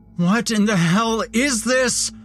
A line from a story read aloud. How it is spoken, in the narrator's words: I screamed in panicked frustration